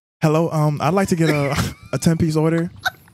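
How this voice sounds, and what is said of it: Put-on white man's professional voice. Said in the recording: “we still need to hear ... professional voice ... do the voice ... don't he just sound like a white man?”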